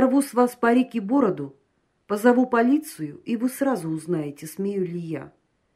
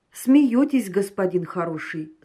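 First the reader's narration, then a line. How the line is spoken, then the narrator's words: Calm reply. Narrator (Russian): спокойно ответил Патмосов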